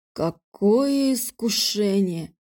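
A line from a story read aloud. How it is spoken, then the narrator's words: Drawling. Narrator (Russian): протянул Алекс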